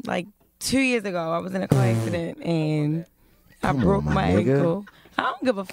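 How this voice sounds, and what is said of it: Baltimore accent. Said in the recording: “I love your accent... That's that Baltimore shit right how there.”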